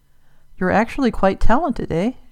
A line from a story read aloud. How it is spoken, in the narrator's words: muttered